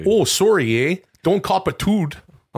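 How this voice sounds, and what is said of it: Put-on Canadian, Fargo-like accent. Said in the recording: “You sound like you're in Fargo when you do a Canadian thing.”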